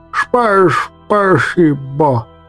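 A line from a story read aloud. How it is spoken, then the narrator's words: Relieved toothless mumble. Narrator (Russian): Выдохнул я с огромным облегчением, шамкая беззубым ртом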